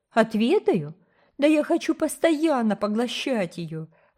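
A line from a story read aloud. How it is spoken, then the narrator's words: Laughing exclamation. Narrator (Russian): воскликнула Рила со смехом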